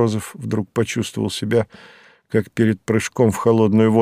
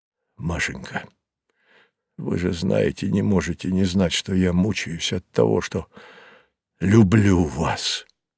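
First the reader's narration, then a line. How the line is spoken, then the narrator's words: Breathless exhale. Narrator (Russian): выдохнул он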